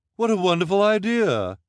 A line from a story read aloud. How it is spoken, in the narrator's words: Esme exclaimed, as if the idea had not been hers